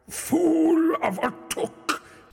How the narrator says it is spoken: growled

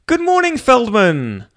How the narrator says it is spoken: Lefkowitz called out to Feldman

